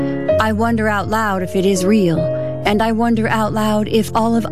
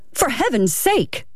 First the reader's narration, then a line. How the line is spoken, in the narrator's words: the clerk exclaimed